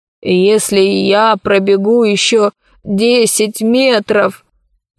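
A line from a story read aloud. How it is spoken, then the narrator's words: Old man's moan. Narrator (Russian): простонал старик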